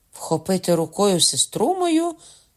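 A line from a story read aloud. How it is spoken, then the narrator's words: Cried out, duke. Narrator (Ukrainian): скрикнув герцог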